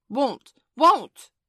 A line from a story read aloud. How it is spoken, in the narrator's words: cried Michael naughtily